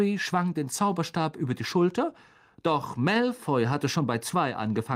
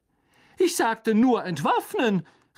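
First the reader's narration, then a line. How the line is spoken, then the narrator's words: Agitated shout over crowd. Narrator (German): rief Lockhart aufgebracht über die Köpfe der kämpfenden Menge hinweg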